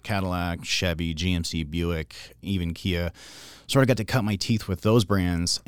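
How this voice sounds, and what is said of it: Smooth, pleasant radio-style voice. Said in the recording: “your radio voice is top notch? ... You're easy to listen to. ... you have a very ingratiating voice.”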